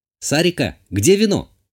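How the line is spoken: Shout. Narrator (Russian): крикнула я

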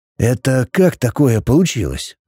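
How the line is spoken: Hoarse, strained voice. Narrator (Russian): спросил Фасти севшим голосом

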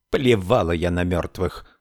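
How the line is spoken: Snorting dismissively. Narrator (Russian): фыркнула Мэф

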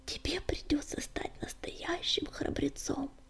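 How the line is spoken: Sighing whisper. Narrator (Russian): Вздохнув, прошептала она

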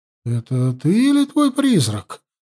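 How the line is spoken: Forced out. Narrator (Russian): выдавила она

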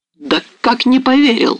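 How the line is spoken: Exclamation. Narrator (Russian): воскликнула Марианна

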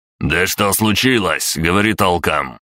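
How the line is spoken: Barking. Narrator (Russian): рявкнул Гриша

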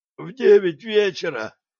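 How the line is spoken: Hoarse, guard. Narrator (Russian): просипел охранник

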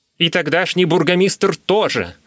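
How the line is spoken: Exclamation. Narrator (Russian): воскликнул Кибицер

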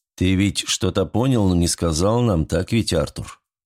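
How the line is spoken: Quiet question. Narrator (Russian): тихо спросил его Генрих

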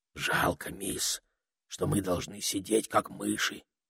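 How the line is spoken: Whispering. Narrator (Russian): прошептал, наконец, Этельред

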